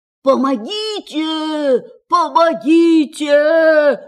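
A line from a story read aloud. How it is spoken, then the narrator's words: Screaming. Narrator (Russian): закричал он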